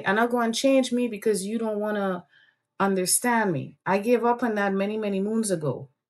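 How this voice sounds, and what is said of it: Strong Caribbean island accent. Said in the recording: “I grew up in the islands. You hear the accent coming on full stream, unfiltered”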